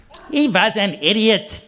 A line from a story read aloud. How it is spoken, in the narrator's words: snapped Shirley